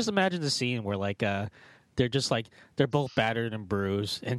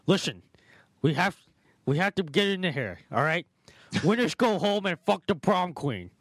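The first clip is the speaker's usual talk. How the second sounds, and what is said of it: Imitates another person's voice. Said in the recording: “What is that an impression of exactly? ... somewhere between Sean Connery and like”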